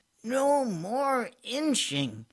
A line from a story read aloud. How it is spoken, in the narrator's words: he cried